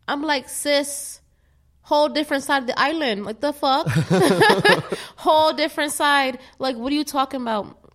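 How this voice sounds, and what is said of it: Exaggerated Caribbean accent, self-described terrible. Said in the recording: “that's my little accent. It's terrible. I have a terrible accent”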